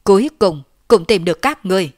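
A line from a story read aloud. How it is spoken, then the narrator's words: Loud, breathless. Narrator (Vietnamese): Lôi Tẩu lớn tiếng nói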